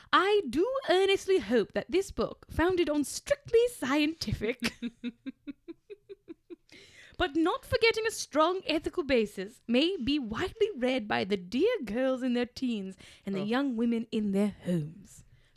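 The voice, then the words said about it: Impression of Frances E. Willard. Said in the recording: “commended by Miss F. Willard, the eminent American temperance worker ... a quote from Frances E. Willard ... I'll do her voice.”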